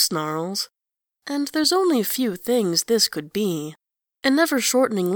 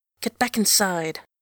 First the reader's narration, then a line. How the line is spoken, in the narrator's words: Angelros hisses